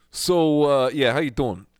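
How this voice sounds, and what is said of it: Put-on New York accent. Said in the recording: “So now I got to change my accent ... to New York City”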